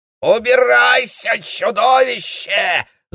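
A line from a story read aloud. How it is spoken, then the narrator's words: Scream. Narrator (Russian): завопила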